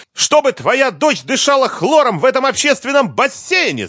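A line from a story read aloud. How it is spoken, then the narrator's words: Shouting. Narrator (Russian): закричала Лиза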